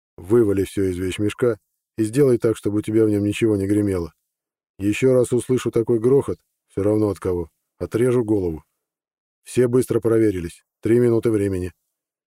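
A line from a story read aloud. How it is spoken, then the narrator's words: Calm suggestion. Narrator (Russian): спокойно предложил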